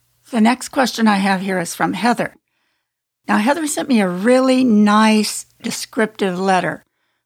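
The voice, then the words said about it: Worn-out, failing hoarse voice. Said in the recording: “my voice is starting to get really worn out ... my voice completely gives out on me ... my voice is ready to give out”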